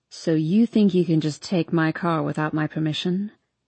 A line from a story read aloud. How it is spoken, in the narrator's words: His voice is low, and I can't tell if he is joking